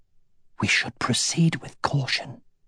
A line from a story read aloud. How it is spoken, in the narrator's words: whispered Wirden